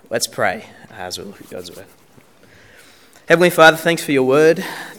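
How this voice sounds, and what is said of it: Voice affected by a cold. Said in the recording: “I have a bit of a cold, so if I just start coughing”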